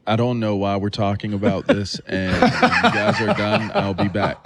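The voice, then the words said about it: Imitates another person's voice. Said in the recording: “my best Brady Quinn impersonation”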